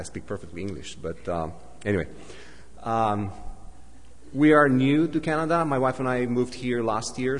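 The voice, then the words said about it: Non-native, Dracula-like foreign accent. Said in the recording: “English is not my first language... my accent can be funny sometimes... they say I speak with Count Dracula's accent or Gru's accent”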